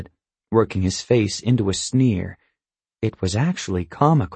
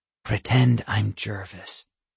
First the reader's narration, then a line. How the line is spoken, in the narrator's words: I whispered to him